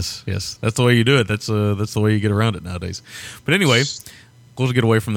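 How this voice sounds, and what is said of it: Usual voice. Nothing is said of it.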